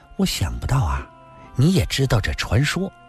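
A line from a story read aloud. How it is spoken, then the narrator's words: Sweetly smiling. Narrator (Chinese): 林仙儿嫣然地道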